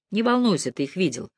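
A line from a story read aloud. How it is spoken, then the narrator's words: Gloomy. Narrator (Russian): мрачно сказал Мэлори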